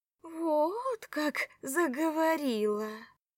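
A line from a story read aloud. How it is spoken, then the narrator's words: Drawling. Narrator (Russian): протянула душечка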